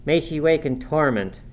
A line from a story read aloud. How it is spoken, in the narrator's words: cried with a frightful vehemence, groaning in a sudden paroxysm of ungovernable passion